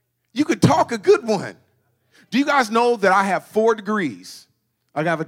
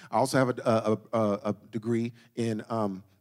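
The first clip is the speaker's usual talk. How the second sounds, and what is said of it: Deliberate stuttering. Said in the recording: “you know I'm lying because I'm stuttering ... I couldn't even get it out”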